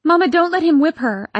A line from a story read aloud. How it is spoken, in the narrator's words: I cried